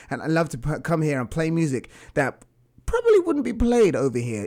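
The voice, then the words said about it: English accent. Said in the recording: “I have an accent. ... I am from England”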